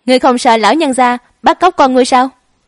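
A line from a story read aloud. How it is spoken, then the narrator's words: Tearless wailing shout. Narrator (Vietnamese): Lã Ngoan Đồng khóc không ra nước mắt, hét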